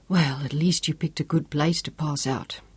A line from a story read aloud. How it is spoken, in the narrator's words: he congratulated Job in a hoarse whisper